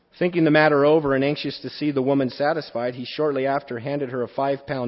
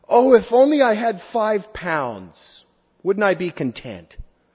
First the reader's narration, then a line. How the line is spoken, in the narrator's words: the cook exclaim